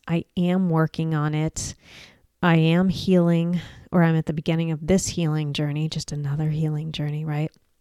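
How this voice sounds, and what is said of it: Strained, struggling voice. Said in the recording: “I've been really struggling with my voice, including today ... apologize for my voice ... pain in my throat”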